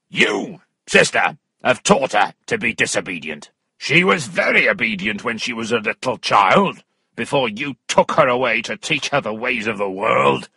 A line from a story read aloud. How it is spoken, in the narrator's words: Weston shouting